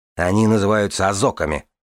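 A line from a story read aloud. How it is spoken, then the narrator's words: Snort. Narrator (Russian): фыркнула Дорна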